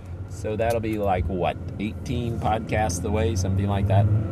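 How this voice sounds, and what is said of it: Tired, slightly sore voice. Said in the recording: “My voice is a little sore today, a little tired, I should say. It's not really sore, it's just tired. A little tired today.”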